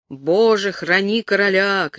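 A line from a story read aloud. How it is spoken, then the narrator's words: Crowd shouting. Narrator (Russian): кричали они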